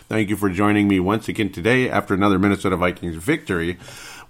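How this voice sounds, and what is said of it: Voice altered by a cold. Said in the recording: “my voice is a little bit funky. I think it still is. I've been recovering from a cold ... there's always the lingering effects that alter your voice”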